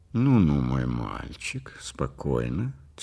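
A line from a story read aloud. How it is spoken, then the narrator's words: Quiet. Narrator (Russian): тихо сказал Ривкин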